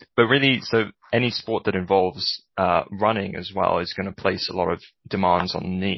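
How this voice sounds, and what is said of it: British accent. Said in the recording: “I spent most of my life in the UK, if you couldn't tell from the accent”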